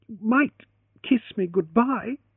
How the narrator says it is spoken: she began, then faltered and swallowed

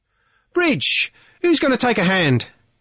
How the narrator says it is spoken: Eddie Little cried impatiently

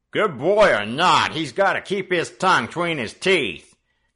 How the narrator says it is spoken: growled the second newcomer, who had not yet spoken

